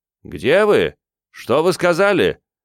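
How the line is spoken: Shout. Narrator (Russian): крикнул

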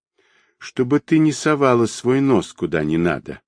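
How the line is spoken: Calm. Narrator (Russian): спокойно проговорил

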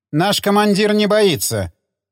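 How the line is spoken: Stern. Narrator (Russian): Строго отозвался переводчик

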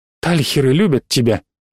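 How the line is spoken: Breathed out. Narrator (Russian): выдохнула

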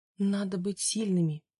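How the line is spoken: Barely audible. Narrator (Russian): еле слышно произнесла Габриэла

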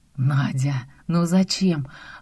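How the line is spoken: Exhaling. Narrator (Russian): выдохнул Ромка

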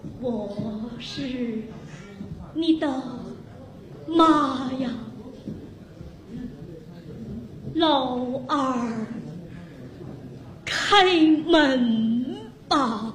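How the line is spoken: Trembling voice outside. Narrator (Chinese): 门外声音颤抖地说

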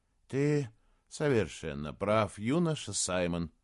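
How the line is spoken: Quiet. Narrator (Russian): тихо сказала она

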